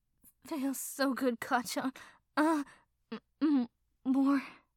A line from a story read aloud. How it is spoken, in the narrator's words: he moaned